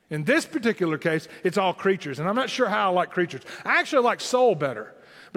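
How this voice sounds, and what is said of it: Southern Tennessee accent. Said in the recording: “my southern Tennessee accent”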